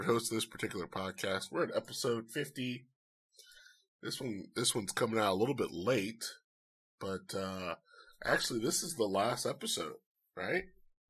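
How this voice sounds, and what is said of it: Sick, weird-sounding voice. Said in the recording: “As you can tell from my voice, ... your boy got COVID ... my voice is going to sound weird”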